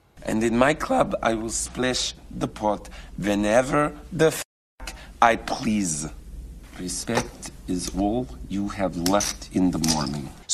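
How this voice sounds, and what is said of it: John Malkovich's put-on Russian accent. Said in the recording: “Russian accent. ... John Malkovich, Rounders. ... So Russian-speaking English will sometimes stick a little y sound in. ... what Malkovich does here is something that no Russian speaker speaking English would actually do, which is palatalize”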